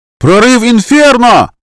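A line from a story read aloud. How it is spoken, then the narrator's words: Someone yelling from behind. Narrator (Russian): завопил кто-то за спиной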